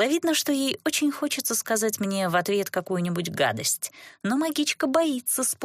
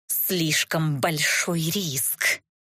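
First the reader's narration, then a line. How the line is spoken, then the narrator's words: Through gritted teeth. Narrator (Russian): процедила Катисса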